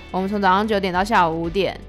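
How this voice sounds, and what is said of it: Lazy, languid, rude-sounding voice. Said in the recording (Chinese): “他就用很慵懒的声音说 ... 就是非常的口气不好啦”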